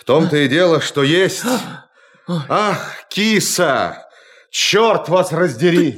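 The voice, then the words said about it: Shouting loudly. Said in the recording (Russian): “не кричите вы! Вас слышно!”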